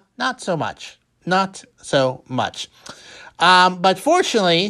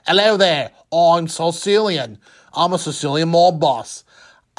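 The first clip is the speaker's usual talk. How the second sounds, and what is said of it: Attempted Liverpool accent sounding Australian. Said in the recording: “heavy Liverpool accent ... That's Australian, but basically that”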